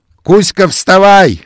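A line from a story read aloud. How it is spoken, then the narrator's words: Shouting. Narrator (Russian): закричал он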